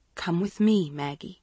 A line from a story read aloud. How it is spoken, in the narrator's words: she said softly